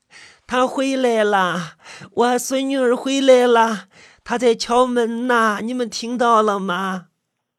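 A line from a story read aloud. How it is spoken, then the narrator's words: Trembling joyful old woman's cry. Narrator (Chinese): 金老太惊喜的颤抖着，冲我们叫着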